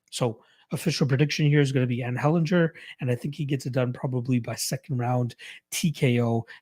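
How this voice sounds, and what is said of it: Strained, sore voice. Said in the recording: “my voice is feeling it for some reason. ... It kind of hurts to talk right now”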